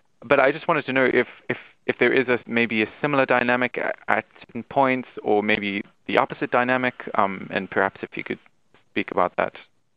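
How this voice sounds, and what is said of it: South African accent. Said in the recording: “I'm not English, as you probably can hear from my accent. I'm South African.”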